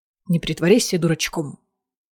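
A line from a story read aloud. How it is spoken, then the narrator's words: Cold reply. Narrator (Russian): холодно ответил Риз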